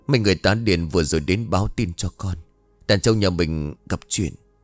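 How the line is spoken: Resigned sigh. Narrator (Vietnamese): biết chắc không thể giấu được nữa cho nên đành thở dài

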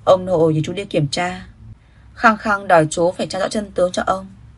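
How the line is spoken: Sighing. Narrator (Vietnamese): Quý Dịch Quân thở dài nói

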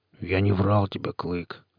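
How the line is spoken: Soft. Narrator (Russian): сказал мягко

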